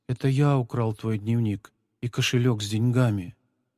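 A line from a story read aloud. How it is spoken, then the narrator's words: Quiet speech. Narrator (Russian): Павлик тихо произнес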